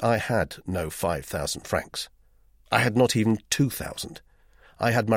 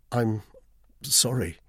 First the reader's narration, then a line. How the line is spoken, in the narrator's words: stammered